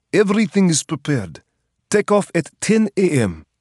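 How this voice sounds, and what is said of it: Russian-accented male character voice. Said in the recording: “Sid's Russian accent broke the still.”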